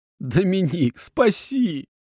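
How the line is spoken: Pleading. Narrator (Russian): Взмолился я

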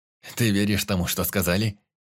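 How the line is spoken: Contemptuous snort. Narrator (Russian): Презрительно фыркнул Денис

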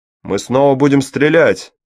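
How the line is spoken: Shouted. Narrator (Russian): закричал пилу

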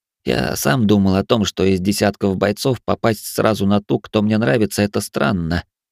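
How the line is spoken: Reluctant mumble. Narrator (Russian): нехотя пробормотал

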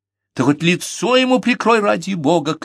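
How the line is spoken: Mother shouting. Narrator (Russian): крикнула матушка

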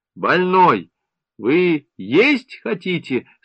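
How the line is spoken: Stern, official. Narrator (Russian): спросила сестра строго и официально

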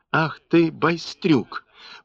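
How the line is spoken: Strange, uncertain threat. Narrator (Russian): погрозил странно, неуверенно

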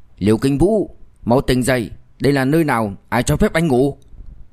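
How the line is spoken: Angry. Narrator (Vietnamese): Mạnh Khánh Nghĩa tức giận nói

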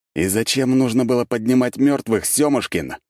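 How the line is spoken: Growled. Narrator (Russian): прорычал я

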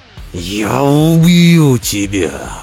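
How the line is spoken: Roaring. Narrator (Russian): взревел Лагерботтом

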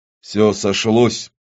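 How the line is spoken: Muttered. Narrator (Russian): пробормотал Авадонна

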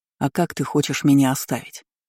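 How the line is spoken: Calm clarifying. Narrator (Russian): уточнил спокойно

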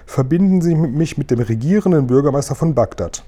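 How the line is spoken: Plain. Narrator (German): sagte sie

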